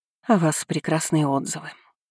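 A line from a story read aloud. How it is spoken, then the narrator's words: Sighed. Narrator (Russian): вздохнула она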